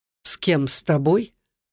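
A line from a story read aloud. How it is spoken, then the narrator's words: Cold question. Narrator (Russian): холодно переспросил Руслан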